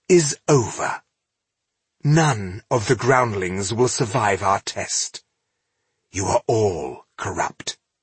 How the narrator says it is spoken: she said icily

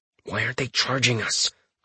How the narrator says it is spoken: I growl softly

